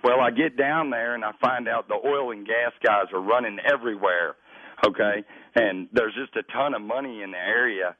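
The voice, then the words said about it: Heavy Texas accent. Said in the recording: “It's a heavy Texas accent.”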